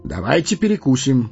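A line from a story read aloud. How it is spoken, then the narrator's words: Cheerful suggestion. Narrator (Russian): бодрым голосом предложил странник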